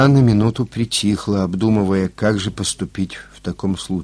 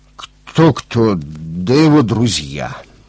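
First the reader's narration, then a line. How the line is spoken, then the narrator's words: Forced out, at a loss. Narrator (Russian): Не зная, как все объяснить, ей Володя выдавил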